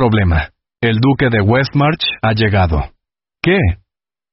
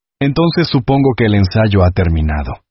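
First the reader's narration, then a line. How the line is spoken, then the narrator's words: Dangerously calm voice. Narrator (Spanish): dijo con voz peligrosamente tranquila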